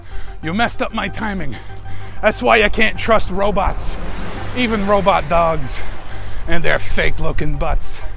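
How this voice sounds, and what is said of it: Out of breath. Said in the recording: “now I'm out of breath.”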